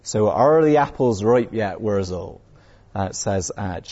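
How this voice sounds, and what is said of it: Put-on Somerset accent. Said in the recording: “drag out my Somerset accent.”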